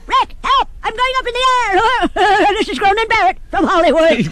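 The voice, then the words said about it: High-pitched helium voice. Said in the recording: “my voice is getting higher”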